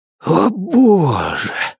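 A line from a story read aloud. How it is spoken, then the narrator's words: Breathed exclamation. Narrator (Russian): выдохнул Джон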